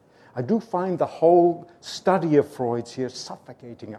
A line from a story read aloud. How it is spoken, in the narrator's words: I exclaimed